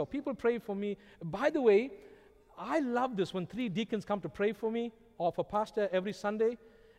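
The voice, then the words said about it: Strong non-native English accent. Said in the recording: “maybe it's your accent... Lord, please help ... talk slower. Help him to pronounce the words better.”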